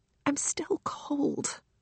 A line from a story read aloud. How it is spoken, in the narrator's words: whispers Trixie